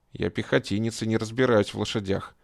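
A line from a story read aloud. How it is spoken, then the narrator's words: Muttered. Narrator (Russian): пробормотал белокурый легионер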